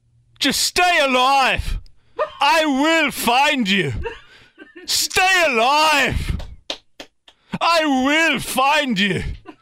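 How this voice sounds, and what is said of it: Put-on Irish-British mixed accent. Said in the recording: “It's kind of an Irish, British mix. ... It's pretty good. It's not bad.”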